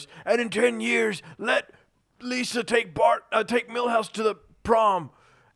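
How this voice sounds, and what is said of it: Cartoon character voice. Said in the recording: “doing the voice ... it's not bad”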